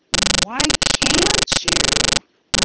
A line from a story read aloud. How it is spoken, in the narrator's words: Roy asked more calmly